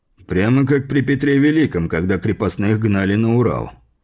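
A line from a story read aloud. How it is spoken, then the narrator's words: Amused snort. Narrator (Russian): хмыкнув, покачал головой Флуг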